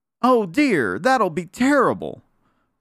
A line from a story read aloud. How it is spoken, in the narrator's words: cried Susie, as she thought she might never see her little brother Sammy anymore, or Uncle Wiggily either